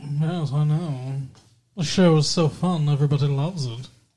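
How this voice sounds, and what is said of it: Imitation of a sitcom character's voice. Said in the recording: “You are so weird. ... You don't remember Thurston Howell the Third?”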